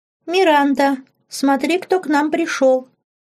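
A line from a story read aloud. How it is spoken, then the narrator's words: Thin childish voice. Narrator (Russian): заговорила она тонким детским голоском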